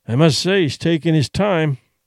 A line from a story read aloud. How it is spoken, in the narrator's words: Duncan grumbled